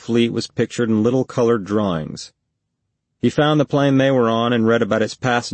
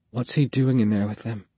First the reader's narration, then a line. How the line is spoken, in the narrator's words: She whispered